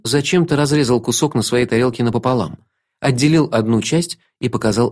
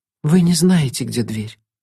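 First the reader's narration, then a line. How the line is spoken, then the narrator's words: Resigned exhale. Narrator (Russian): обреченно выдохнула Алекс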